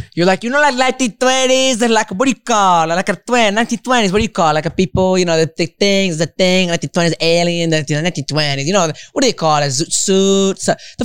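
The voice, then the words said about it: Mocking imitation with an accent. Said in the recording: “I don't know why I gave you an accent.”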